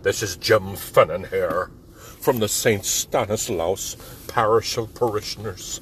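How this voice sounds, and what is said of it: Imitates another person's voice. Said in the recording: “my impression, Jim Fennan”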